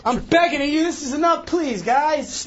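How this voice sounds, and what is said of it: Yelling. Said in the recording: “stop yelling”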